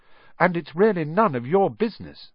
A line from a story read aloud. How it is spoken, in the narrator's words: said Harry